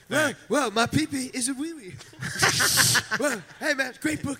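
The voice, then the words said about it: Imitates another person's voice. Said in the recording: “do an impression of Jimmy Fallon saying the title”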